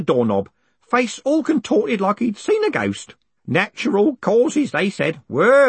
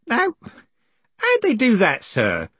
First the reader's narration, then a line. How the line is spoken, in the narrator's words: said Groat in a kindly voice